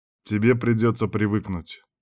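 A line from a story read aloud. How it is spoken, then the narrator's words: Calm boss. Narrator (Russian): спокойно сказал шеф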